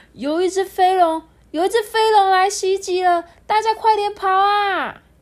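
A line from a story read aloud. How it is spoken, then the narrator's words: Loud alarmed guard. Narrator (Chinese): 守卫大声的说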